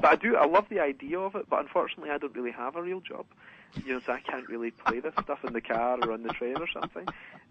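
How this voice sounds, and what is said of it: Strong, hard-to-understand accent. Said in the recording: “my accent's impenetrable to normal people ... only about 50% of the audience can understand one word I'm saying”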